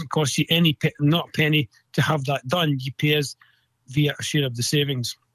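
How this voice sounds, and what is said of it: Scottish accent. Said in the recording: “I love your Scottish accent”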